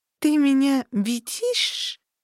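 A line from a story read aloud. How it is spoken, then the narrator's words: Lisping creature asking. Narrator (Russian): шепеляво спросила нечто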